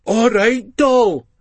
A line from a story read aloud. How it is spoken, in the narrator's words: Ali shouts in a mock workie's voice